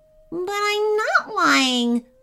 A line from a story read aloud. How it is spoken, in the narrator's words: whined Clunky